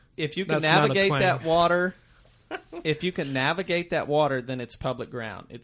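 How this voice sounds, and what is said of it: Southern Ozarks twang. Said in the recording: “Excuse my Southern Ozarks ... my twang.”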